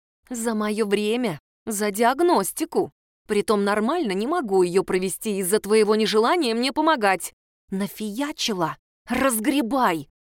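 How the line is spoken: Hissed. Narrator (Russian): прошипела я

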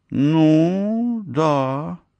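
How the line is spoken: Drawn-out reply. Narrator (Russian): протянула я в ответ

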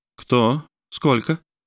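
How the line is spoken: Even voice. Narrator (Russian): спросила Даллан ровным голосом

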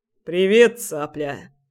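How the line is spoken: Muttered. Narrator (Russian): пробурчал он

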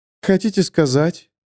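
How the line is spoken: Even tone. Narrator (Russian): ровным голосом говорит она

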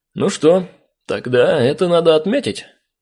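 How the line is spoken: Cheerful suggestion. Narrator (Russian): весело предложил я

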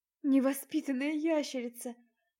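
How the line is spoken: Groaning. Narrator (Russian): простонала я

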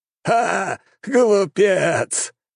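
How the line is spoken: Loud laughter. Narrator (Russian): расхохотался правитель

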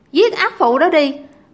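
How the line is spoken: Sudden shout. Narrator (Vietnamese): có người bỗng la lên

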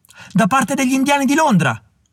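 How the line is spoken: Messenger shouting. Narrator (Italian): gridò il messaggero

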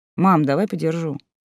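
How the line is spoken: Plain. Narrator (Russian): сказал он

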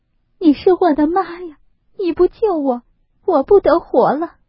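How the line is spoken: Sobbing. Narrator (Chinese): 呜呜咽咽的哭起来，说道

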